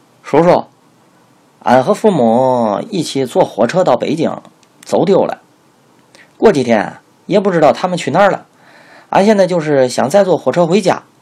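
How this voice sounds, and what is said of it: Imitated rural countryside accent. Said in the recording (Chinese): “模仿，即从书馆里学来的乡下人的口音”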